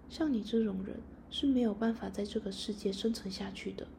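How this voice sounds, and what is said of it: Quiet, hushed voice. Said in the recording (Chinese): “小声地说”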